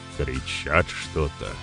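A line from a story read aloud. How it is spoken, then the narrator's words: Grumbling. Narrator (Russian): пробурчал Маркус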